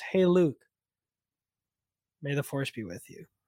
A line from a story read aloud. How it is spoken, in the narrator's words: Han, more gently says